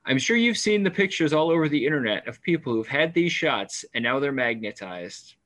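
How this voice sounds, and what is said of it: Imitates another person's voice. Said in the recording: “my best Sherry Tenpenny impression”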